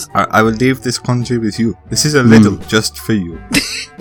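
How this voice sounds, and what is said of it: Put-on character accent. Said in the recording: “I'm terrified of hearing this accent back.”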